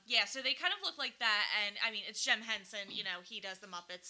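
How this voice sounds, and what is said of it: Delco (Philadelphia-area) regional accent. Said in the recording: “We are from Delco. We say down the shore. ... I'm so sorry for my accent”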